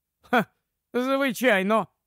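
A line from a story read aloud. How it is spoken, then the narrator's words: Insincere laughing agreement. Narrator (Ukrainian): підтакнув Фергюсон і нещиро засміявся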